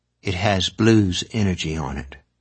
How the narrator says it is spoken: Maura said

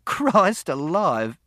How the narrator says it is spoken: he laughed

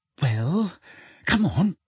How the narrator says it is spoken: said Hermione slightly nervously

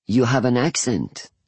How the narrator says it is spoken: he finally says

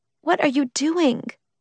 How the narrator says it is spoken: Lee asked, her voice small

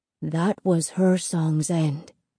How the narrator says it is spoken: Lito whispered

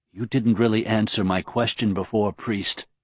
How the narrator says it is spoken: Serene whispered

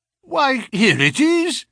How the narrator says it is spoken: I cried in amazement

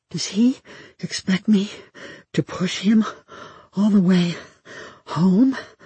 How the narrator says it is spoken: I asked myself, panting

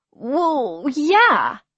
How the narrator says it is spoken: I faltered

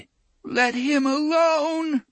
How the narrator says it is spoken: moaned the voice of little Blaine

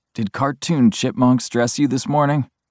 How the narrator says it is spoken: he grumbles

